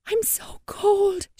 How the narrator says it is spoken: she whispered

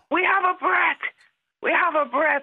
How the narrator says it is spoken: a massive shout from a doctor

